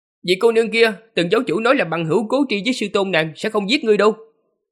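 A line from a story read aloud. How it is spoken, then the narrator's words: Raised voice. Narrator (Vietnamese): Lâm Hiền cao giọng nói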